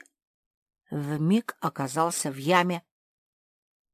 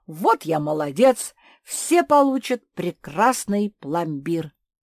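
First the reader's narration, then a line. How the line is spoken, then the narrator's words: Joyful exclamation. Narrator (Russian): обрадовался, запрыгал от радости, воскликнул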